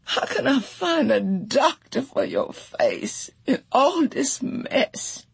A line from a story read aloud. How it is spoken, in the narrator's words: Janie wailed